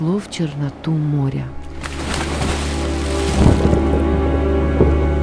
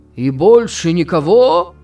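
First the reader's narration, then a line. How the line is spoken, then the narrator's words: Shouting. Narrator (Russian): кричал Флэк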